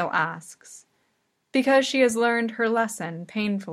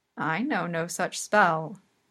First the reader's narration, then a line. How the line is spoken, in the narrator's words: the witch says